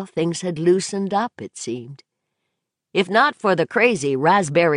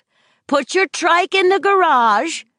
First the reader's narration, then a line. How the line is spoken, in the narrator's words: Donna yelled